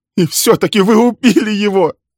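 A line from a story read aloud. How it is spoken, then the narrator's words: Sobbing. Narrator (Russian): зарыдала Милли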